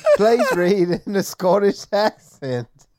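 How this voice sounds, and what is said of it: Unconvincing attempt at Scottish accent. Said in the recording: “I don't care what that's supposed to be, but it's not Scottish.”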